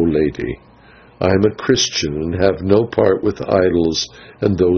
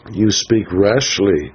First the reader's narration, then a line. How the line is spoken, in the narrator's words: I answered